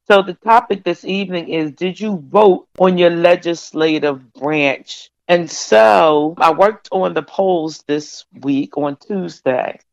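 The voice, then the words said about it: Unwell, allergy-affected voice. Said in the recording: “excuse my voice. I have really bad allergies.”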